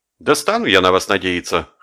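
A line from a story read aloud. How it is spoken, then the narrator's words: Skeptical snort. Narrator (Russian): хмыкнул Жеглов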